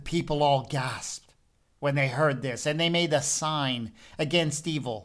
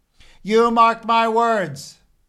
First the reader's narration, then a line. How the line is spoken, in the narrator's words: Hosea cried over the red-faced child in his arms